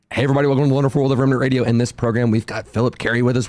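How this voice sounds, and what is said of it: Slightly hoarse voice. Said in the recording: “I'm a little hoarse”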